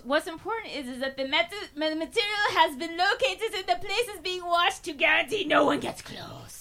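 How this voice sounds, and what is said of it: Mad scientist voice. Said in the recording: “what the fuck was that accent? ... Went mad scientist. ... She went mad really scientist in a hurry.”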